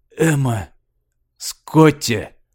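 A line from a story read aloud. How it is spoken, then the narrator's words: Weak, hopeless voice. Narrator (Russian): Слабым, упавшим голосом сказал он, как бы не ожидая ответа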